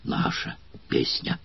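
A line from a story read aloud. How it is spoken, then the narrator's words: Surprised joyful group whispering. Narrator (Russian): шептали удивленно и радостно некоторые из гладиаторов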